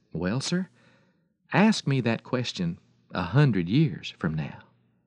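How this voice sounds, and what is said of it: Gentle voice. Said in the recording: “in a gentle voice”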